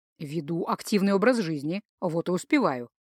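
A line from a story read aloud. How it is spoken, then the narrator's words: Grumbling. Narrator (Russian): пробурчал Джейка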